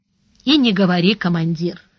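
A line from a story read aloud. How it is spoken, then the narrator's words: Dejected, natural tone. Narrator (Russian): уныло сказал Бонни прежним, естественным тоном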